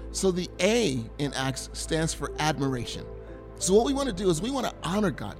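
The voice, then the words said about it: American country accent. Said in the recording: “my country accent kicking in”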